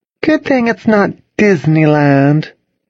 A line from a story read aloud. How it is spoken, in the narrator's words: Charlotte said sweetly